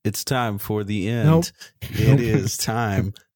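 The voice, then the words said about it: Imitates another person's voice, rapping. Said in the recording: “That was my Will Smith impersonation.”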